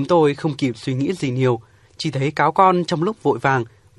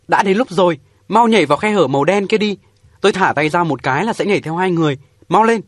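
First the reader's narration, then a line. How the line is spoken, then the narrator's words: Urgent shout. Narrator (Vietnamese): Lâm Nam liền quay đầu lại phía chúng tôi hét lên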